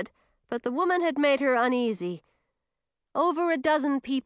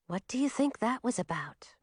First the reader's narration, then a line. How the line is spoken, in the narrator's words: Millie whispered